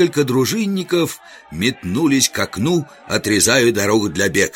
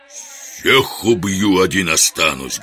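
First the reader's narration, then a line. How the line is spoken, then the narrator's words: Thunderous bark. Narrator (Russian): громогласно рявкнул Жихарь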